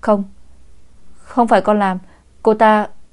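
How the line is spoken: Awkward stammering explanation. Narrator (Vietnamese): Phương Minh Trung gượng gạo ấp úng giải thích

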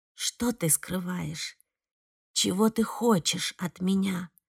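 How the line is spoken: Whisper. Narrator (Russian): шептала она

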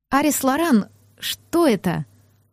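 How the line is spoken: Trembling voice. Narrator (Russian): У меня завибрировал голос

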